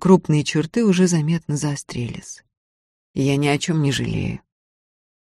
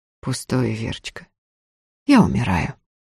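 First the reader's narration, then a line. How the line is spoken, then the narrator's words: Calm remark. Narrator (Russian): спокойно заметил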